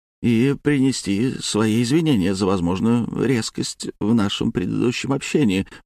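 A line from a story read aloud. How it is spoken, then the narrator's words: Scholar's grumble. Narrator (Russian): буркнул ученый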